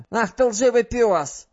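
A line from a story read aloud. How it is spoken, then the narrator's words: Screamed. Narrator (Russian): завопила она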